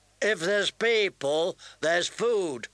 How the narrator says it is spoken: Hot Pie said too loudly

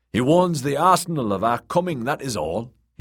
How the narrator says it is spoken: he shouted

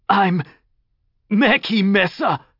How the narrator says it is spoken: he croaked

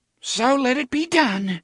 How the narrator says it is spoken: Cordelia cried

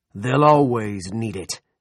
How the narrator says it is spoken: he roared

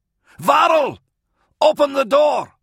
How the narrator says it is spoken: Kalia yelled

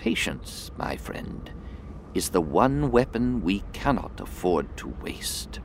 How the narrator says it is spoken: she whispered softly

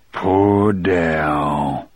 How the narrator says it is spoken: he said in a low, hoarse voice

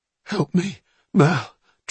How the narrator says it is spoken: Truitt gasped

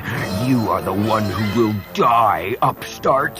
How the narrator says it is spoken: she growled

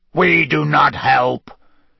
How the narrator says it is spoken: he said in a harsh, croaky voice

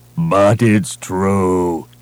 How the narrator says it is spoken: he moaned

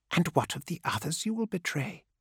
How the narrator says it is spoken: said Aphogomon in a playful whisper

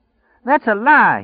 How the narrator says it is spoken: he chanted hysterically

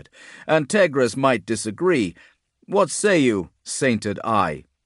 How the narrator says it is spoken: Tegras, perched on the mast above, laughed

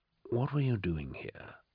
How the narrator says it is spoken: He asked, softly

